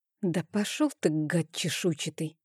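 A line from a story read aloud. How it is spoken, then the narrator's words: Muttered under breath. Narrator (Russian): пробормотала я себе под нос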